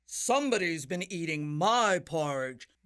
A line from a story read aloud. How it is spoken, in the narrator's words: bellowed the great huge Papa Bear